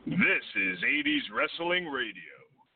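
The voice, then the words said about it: Smooth velvety radio announcer voice. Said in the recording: “In that sweet, velvety, silky radio voice of yours”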